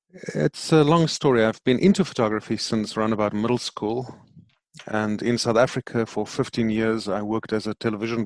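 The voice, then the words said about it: Deep South African accent. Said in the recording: “somebody who still has a deep accent, even though he lives in New Jersey ... South African ... the accent covers for that because it sounds adorable”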